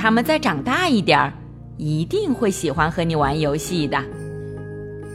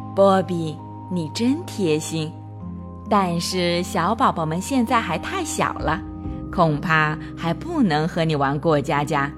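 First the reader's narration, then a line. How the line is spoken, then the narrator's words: Gentle. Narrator (Chinese): 妈妈…温柔地说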